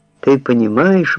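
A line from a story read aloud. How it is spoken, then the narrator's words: Exclaimed. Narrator (Russian): воскликнул он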